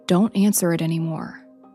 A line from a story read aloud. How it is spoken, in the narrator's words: calmly said